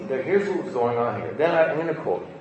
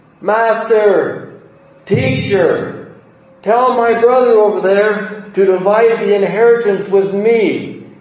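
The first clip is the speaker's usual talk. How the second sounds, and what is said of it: Yelling loudly. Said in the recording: “He was yelling it. That's why I'm doing this. I'm yelling”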